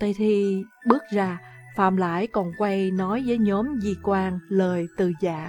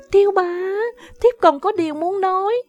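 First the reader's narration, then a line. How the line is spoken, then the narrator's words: Startled cry. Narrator (Vietnamese): Phạm Lãi giục bồng xốc nàng khiến nàng kêu lên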